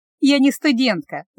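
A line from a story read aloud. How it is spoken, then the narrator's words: Laughing. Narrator (Russian): засмеялась Настя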